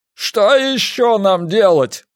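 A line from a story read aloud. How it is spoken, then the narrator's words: Shout. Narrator (Russian): прокричал Грунг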